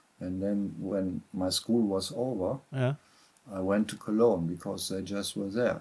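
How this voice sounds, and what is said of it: German Cologne accent. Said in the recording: “You sound very, very much like a man from Cologne... I would say you have a very Kölsch accent.”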